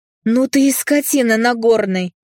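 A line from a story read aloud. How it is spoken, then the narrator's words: Yelling. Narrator (Russian): завопила Кэм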